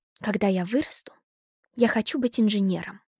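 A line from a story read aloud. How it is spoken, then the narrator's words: Conspiratorial whisper. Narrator (Russian): заговорщически прошептала Зойка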